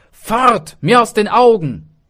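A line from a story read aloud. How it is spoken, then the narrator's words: Call. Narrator (German): rief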